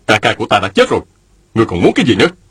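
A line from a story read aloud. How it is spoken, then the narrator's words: Angry. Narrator (Vietnamese): Mạnh Đào giận dữ nói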